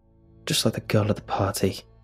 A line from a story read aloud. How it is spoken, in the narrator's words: mumbled